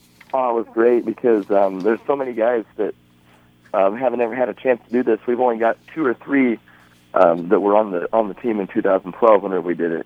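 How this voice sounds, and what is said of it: Slightly hoarse voice. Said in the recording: “I'm a little bit hoarse.”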